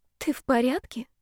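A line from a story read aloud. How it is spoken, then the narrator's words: Frightened whisper. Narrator (Russian): испуганно шепнула она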